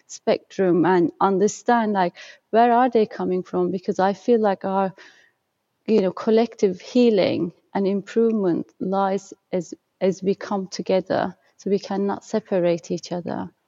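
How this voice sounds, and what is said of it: Lilting accent. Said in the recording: “you have a lilting accent”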